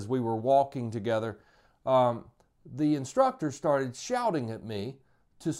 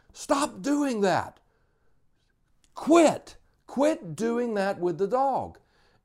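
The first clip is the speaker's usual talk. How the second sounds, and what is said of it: Shouting. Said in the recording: “just shouting”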